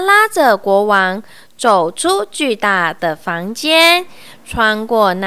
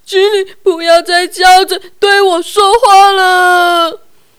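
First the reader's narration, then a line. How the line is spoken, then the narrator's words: Pleading. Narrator (Chinese): 国王哀求他说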